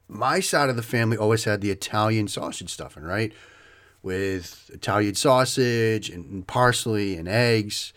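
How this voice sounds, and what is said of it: Boston accent. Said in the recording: “you hear the accent. ... I grew up around Boston in Waltham.”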